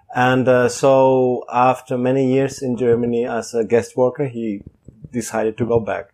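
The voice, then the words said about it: German accent. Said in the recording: “By birth, I come from Germany, which you probably will hear in my accent”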